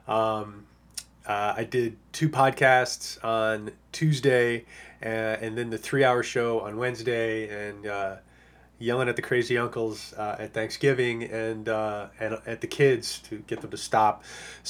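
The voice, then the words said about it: Strained, worn-out voice. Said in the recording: “you might be able to tell I'm losing my voice ... my voice is a little shot ... not the normal dulcet tones”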